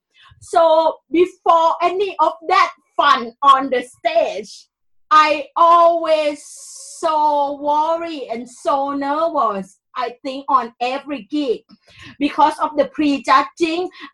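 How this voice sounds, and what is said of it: Strong Thai accent in English. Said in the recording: “obviously you do have a strong accent ... As I am Thai”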